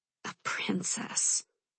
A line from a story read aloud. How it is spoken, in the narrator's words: she mutters under her breath